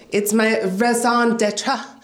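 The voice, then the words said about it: Put-on French accent. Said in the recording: “your French accent ... That was better than most from you.”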